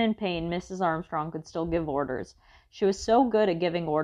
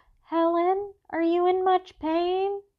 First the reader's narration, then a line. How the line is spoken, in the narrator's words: One of the neighbor women called out